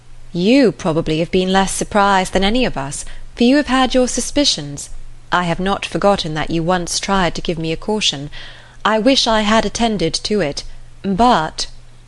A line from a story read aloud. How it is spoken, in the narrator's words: with a sinking voice and heavy sigh